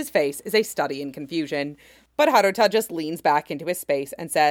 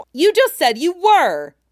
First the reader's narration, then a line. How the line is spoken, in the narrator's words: Haruta yells in his face